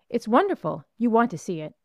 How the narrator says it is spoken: Muriel, eagerly

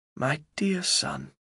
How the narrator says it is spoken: says my mother softly

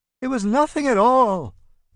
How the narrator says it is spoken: Otto howls

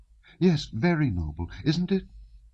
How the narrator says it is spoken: asked so seriously and excitedly that it was evident that what she was now saying she had talked of before with tears

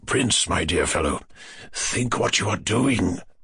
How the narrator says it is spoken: General Lepanchin whispered with horror

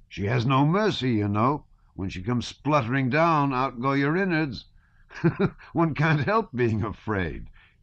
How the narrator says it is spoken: said, laughing

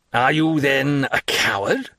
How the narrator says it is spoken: cried, in a contemptuous voice

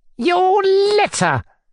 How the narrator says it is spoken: squealed, instantly flaring up as though he had been awaiting that minute for an explosion

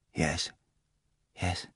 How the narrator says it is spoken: he said quietly

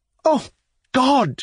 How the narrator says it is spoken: she cried

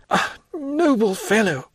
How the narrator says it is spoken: cried he

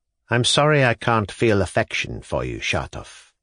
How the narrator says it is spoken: Stavrogin replied coldly

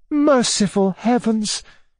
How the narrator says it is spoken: cried Anna Andreevna

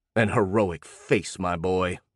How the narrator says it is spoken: replied Lentz scornfully

